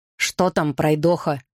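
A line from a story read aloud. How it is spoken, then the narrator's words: Irritated question. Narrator (Russian): раздраженно спросил Гарри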